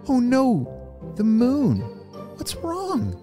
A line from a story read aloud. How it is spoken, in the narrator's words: gasped